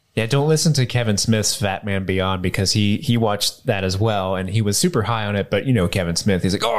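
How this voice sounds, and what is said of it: Usual voice. Nothing is said of it.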